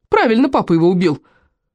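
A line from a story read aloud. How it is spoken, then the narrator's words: Loud wailing yell. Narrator (Russian): вопил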